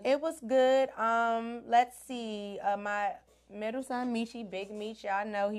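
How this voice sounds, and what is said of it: Deep, rough recovering voice. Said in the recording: “I cannot talk at all last week. I sound like a man a little bit, but last week there was no voice”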